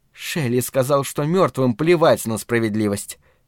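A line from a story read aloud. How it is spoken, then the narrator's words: Quiet. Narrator (Russian): тихо сказала Марина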